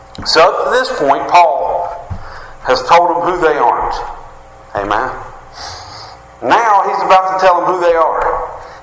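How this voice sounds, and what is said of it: Rural West Virginia hick accent. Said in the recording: “my hick accent”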